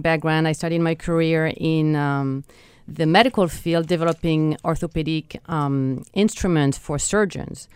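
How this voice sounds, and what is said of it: French accent. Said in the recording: “If you wonder where my accent is from, I'm from France originally”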